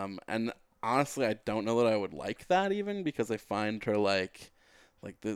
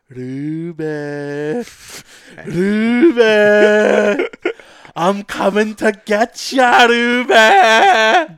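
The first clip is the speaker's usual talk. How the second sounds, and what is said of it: Exaggerated Scottish accent impression. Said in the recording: “What was that impression? ... That's her stupid Scottish accent”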